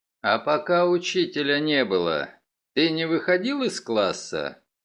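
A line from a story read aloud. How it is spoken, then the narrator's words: Calm, encouraging. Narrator (Russian): Мегре говорил спокойно, подбадривая мальчика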